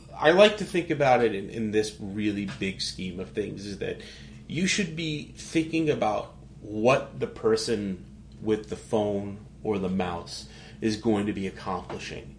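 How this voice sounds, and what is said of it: New York accent. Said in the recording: “my awful New York accent”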